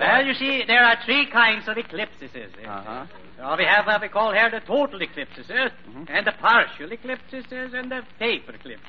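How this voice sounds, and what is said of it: Comic Scandinavian-style accent. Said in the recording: “smorgasbord accent”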